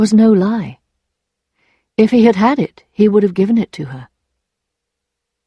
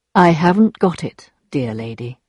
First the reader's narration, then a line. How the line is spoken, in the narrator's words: he looked sadly at her and replied very calmly